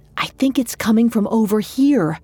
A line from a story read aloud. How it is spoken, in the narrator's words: Georgia whispered